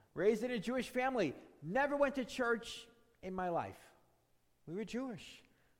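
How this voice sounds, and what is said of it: New York accent. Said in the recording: “you'll hear from my accent. I'm not born here in this area ... born and raised ... in, of all places, New York City”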